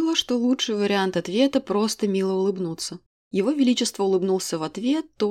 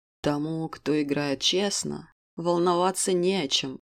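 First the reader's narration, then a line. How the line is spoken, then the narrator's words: Slightly lazy drawl. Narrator (Russian): чуть лениво протянул монарх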